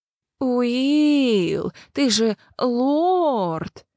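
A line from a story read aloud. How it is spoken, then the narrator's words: Venomous mocking drawl. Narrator (Russian): ядовито протянул Вилмар, передразнивая любимого собутыльника лорда-канцлера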